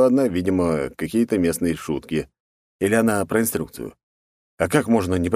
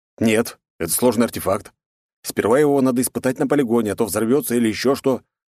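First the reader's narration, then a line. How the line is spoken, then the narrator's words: Shouting while moving. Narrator (Russian): прокричал я уже на ходу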